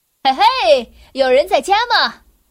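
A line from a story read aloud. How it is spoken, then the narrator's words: Calling out. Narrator (Chinese): 邮递员喊着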